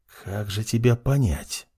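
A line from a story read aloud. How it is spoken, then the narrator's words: Whispered. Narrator (Russian): прошептал он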